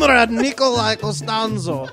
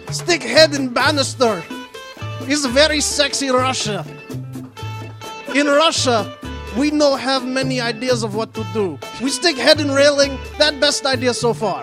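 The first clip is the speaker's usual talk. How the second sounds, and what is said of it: Put-on Russian accent. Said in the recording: “I can do Russian accent.”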